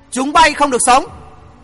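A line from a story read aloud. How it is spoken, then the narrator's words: Cold deadly scream. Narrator (Vietnamese): Tiếng thét lạnh lùng chẳng khác một mệnh lệnh của tử thần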